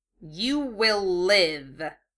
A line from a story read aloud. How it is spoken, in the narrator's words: he snarled